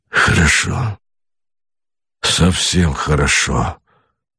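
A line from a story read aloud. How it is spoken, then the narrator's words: Muttering. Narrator (Russian): бормотал Богомолов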